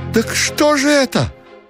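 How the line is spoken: Flustered thin high cry. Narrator (Russian): Ушатиков суматошно вскрикнул тоненько

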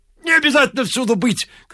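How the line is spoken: Shouting. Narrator (Russian): кричал Ляпис

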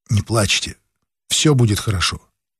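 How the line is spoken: Tender whisper. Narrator (Russian): Лукин нежно нашептывал

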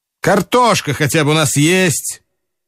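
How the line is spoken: Sudden and loud. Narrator (Russian): неожиданно и громко проговорил Жадов

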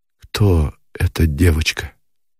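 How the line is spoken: Muffled, breathless question. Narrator (Russian): глухо спросил Никитин, и от удушья, от сердцебиения

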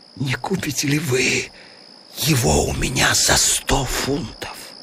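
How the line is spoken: Whisper. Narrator (Russian): шепнул

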